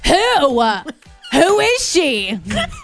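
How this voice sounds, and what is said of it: Owl hoot voiced as jealous girlfriend. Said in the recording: “this is my impression of an owl if it was a jealous girlfriend”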